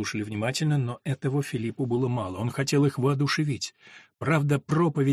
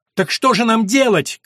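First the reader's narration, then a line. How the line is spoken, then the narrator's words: Shout from crowd. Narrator (Russian): крикнули из толпы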